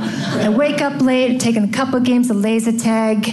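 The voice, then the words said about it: Put-on Boston accent. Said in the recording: “my Boston accent just came from this ... I'm going to do a whole thing like this”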